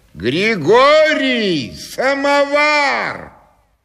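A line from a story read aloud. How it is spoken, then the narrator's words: Shouting at top of lungs. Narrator (Russian): кто-то кричал во все горло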